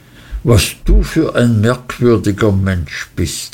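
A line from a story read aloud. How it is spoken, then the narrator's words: Surprised exclamation. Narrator (German): rief ich aus, denn ich hörte jetzt das erste Mal davon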